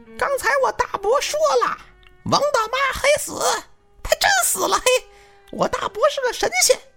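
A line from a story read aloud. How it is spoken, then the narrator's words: Loud, determined shout. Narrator (Chinese): 小黑就上劲儿了，毅然决然的大声的喊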